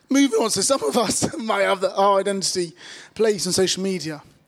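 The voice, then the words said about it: Strained, worn-out voice. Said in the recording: “My voice is struggling. ... we did a lot of football chants for 2 days. ... I couldn't actually speak yesterday.”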